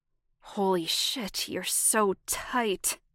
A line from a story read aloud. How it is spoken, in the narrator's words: Jamie hissed